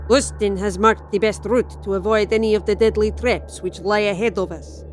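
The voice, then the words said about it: Poor thick Russian accent. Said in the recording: “in a thick Russian accent ... couldn't do a Russian accent for toffee”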